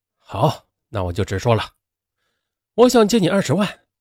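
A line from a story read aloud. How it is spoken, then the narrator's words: Angry, insistent, firm. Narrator (Chinese): 激怒了蔡波，他狠下心，用不容拒绝的语气说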